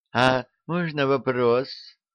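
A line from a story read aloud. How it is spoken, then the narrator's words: Timid, pitying question. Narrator (Russian): робко спросила, с жалостью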